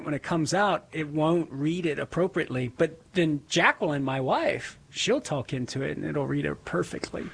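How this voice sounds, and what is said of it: Southern Louisiana accent. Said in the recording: “it can't recognize my accent sometimes... from Southern Louisiana... my accent”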